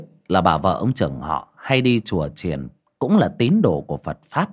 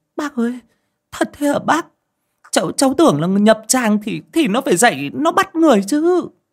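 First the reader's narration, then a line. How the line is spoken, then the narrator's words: Shrieking. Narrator (Vietnamese): Chị Dung rú lên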